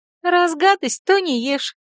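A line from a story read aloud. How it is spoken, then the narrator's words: Giggled. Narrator (Russian): хихикнула царь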